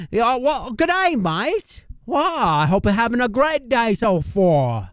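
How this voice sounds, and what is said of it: Weak put-on Australian accent. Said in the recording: “not a very good Australian accent”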